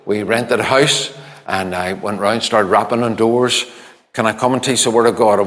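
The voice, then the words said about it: Northern Irish accent. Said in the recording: “my northern accent”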